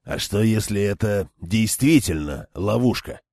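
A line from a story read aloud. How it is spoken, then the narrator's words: Furious wolflike growl. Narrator (Russian): словно разъяренный волк прорычал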